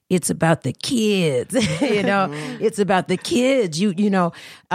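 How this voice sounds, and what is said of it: Imitates another person's voice. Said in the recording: “in my Charlie Sanders voice”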